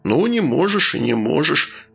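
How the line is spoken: Soothing. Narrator (Russian): успокоил он

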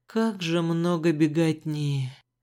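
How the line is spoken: Heartrending sigh. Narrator (Russian): душераздирающе вздохнул Рыжик

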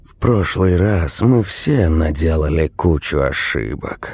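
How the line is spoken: Sigh. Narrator (Russian): вздохнул Крайт

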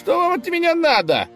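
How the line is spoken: Indignant shout. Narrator (Russian): возмущенно закричал конь

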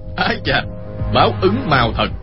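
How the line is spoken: Shout. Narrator (Vietnamese): Chu Bá Thông quát lên

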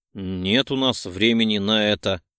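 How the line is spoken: Jealous growl. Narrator (Russian): рыкнул, снова чувствуя ревность в груди

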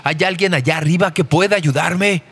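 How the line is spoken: Desperate shout. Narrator (Spanish): en un último acto de desesperación, gritó

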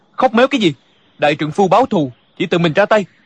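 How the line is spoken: Angry. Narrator (Vietnamese): Địch dân tức giận nói

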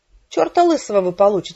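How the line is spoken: Indignant reply. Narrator (Russian): возмущенно ответила я

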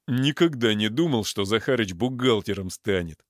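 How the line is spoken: Chuckling. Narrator (Russian): хохотнул Пуля

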